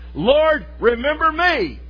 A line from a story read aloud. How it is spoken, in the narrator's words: the repentant thief, being crucified beside the Lord Jesus, cried